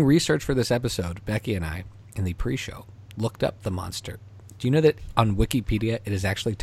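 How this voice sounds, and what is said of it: Usual voice. Nothing is said of it.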